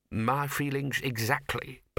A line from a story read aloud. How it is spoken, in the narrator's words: purred the bursar